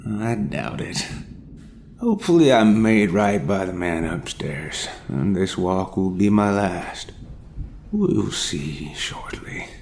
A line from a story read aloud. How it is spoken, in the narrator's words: he sighed